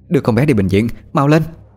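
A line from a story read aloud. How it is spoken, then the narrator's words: Calm but urgent shout. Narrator (Vietnamese): Bà Tú là người duy nhất giữ được bình tĩnh mà hét lên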